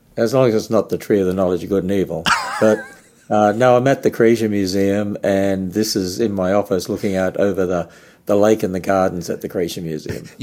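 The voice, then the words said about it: Australian accent. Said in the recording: “you like to hear the Aussie accent”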